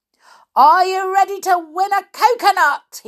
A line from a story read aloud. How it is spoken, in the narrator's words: he shouted